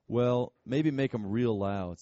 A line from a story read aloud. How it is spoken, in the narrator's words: said Hazel